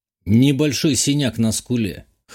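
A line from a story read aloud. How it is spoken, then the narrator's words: Amused snort. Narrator (Russian): хмыкнул я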